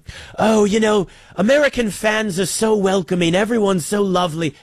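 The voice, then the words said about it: Poor put-on British accent. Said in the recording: “I'm just going to do a British accent the whole time. It's terrible.”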